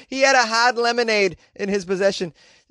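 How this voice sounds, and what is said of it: Put-on Boston accent. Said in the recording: “do it in a Boston accent”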